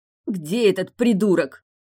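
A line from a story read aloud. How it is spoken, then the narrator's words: Rasping voice. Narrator (Russian): прохрипела Тильда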